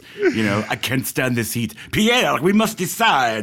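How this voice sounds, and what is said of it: Put-on French chef accent. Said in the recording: “I don't know what that accent was, but it was close. I guess close enough. ... It was the chef from Zut alors. ... It was almost Chekhov from Star Trek.”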